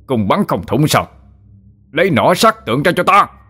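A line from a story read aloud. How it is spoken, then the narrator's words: Angry shout. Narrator (Vietnamese): Tổng binh sứ nổi cơn giận, ngã quát lên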